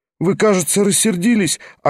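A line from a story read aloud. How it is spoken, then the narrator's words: Upset, pleading question. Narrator (Russian): огорченным и умоляющим голосом спрашивала Лиза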